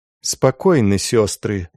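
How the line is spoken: Even, calm voice. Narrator (Russian): ровным голосом проговорила мать Анна

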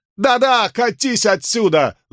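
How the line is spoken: Scream. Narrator (Russian): завопила она

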